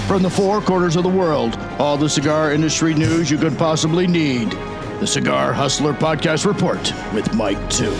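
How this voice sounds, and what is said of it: Very deep announcer voice. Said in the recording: “It's such a deep voice.”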